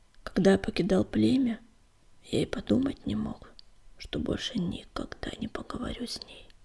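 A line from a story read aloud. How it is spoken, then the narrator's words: Sorrowful whisper. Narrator (Russian): горестно прошептал он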